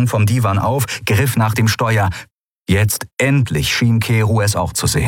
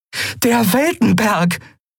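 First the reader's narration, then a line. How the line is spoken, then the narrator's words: Called out. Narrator (German): rief Andriel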